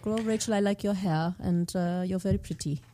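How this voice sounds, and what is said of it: Light put-on German accent. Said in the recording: “It's a very light German accent... It's just very light.”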